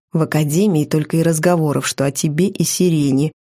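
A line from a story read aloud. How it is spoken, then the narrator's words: Quiet. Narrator (Russian): тихо сообщил мне Сандр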